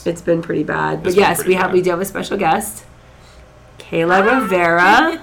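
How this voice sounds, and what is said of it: Rough voice from being sick. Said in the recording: “apologize for my voice. It's terrible... is sick... I'm very sick”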